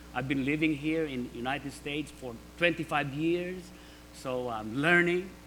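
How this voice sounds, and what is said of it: Slight non-native English accent. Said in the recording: “My English, you can hear me. I have a little accent here and there”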